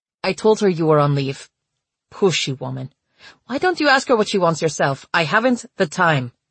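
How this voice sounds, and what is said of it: Strong Czech accent. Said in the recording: “answered in his strong Czech accent”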